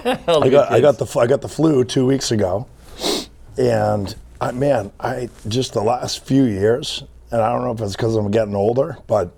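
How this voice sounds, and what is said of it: Hoarse, partly lost voice. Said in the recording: “my voice is... I've lost my voice a little bit.”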